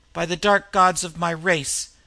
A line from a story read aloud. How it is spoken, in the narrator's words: he cried in anger